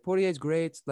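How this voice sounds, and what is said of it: Poorly imitated accent. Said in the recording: “That's a horrible accent,”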